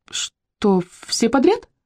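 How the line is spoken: Squeaked. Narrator (Russian): пискнула Челли

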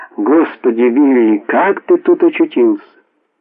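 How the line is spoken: Exclamation. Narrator (Russian): та воскликнула

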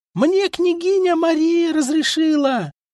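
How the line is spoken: Screaming at top of lungs. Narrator (Russian): Завопила во все горло Юлдуз и издала резкий гортанный крик, с которым конная лава степняков атаковала врага

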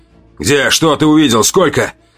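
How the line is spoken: Curt abrupt question. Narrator (Russian): Отрывисто, без предисловий, спросил Марк

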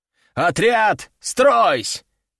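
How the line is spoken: Thundering command. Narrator (Russian): прогремела команда

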